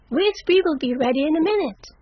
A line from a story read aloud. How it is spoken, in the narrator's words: cried Amy